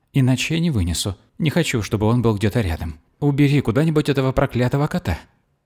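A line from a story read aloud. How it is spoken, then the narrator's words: Pitiful sobbing. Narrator (Russian): Она начала всхлипывать жалобно, почти навзрыд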